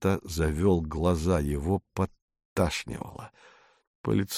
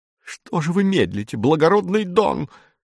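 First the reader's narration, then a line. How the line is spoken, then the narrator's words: Shrill cracking female shout. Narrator (Russian): визгливым срывающимся голосом закричала Донна Акана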